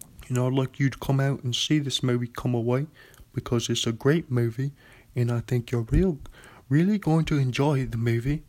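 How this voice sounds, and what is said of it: Imitates another person's voice. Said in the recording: “my Michael Caine impression.”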